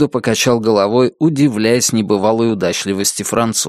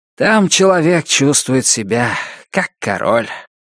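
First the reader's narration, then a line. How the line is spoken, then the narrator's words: Loud sigh. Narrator (Russian): громко вздохнул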